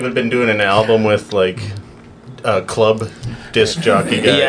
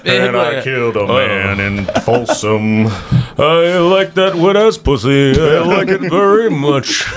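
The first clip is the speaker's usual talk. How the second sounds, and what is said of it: Imitates another person's voice. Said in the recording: “you just got that new impression ... You just came up with that impression”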